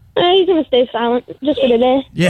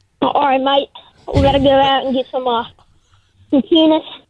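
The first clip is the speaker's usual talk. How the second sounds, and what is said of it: Put-on Australian accent. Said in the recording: “Can you give me some Australian accent real quick?”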